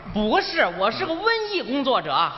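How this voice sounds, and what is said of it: Comic accent with reversed tones. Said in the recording (Chinese): “您这说话老倒着音 ... 这种口音”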